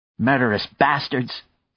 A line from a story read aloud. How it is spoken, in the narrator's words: Maya cried